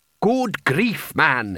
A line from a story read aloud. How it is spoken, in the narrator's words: he snapped